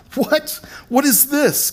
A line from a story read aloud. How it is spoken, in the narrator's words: Gaspar stammered, dumbfounded